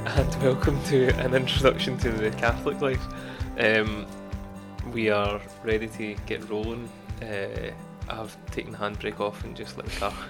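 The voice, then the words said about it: Rough, unwell-sounding voice. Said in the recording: “I sound terrible, but I've got a bit of a cold ... He's no well ... you sound like an old lady”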